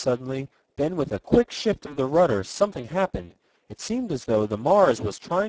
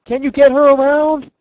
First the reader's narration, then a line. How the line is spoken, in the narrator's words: cried the lieutenant above the roar of the gale